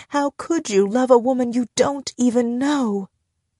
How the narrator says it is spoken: ask, sobbing

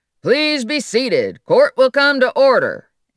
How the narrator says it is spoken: Watson's authority as he bellowed

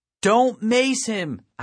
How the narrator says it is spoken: I shouted over the din

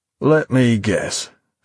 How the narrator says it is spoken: Finch remarked wearily, already knowing the answer

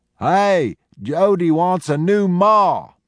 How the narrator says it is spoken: Millwheel shouted ahead

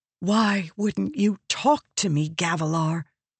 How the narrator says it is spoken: she whispered

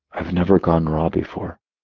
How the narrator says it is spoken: murmuring

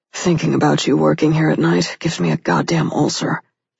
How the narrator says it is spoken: he muttered

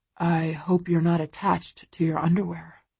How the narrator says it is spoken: he murmurs

